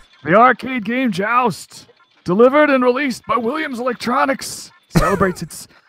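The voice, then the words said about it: Doc Brown character impression. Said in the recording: “your Doc Brown impersonation”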